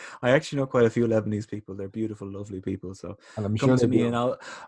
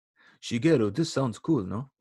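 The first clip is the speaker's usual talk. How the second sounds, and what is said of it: Put-on Lebanese accent. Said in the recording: “What accent was that? ... I do my Lebanese accent a lot recently.”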